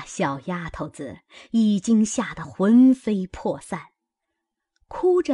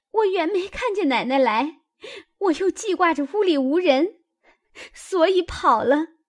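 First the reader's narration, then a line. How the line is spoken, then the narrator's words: Crying young girl. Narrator (Chinese): 小丫头子哭道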